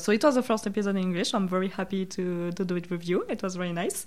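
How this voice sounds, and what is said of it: Non-native English accent. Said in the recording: “with my accent because I still have some difficulties sometimes”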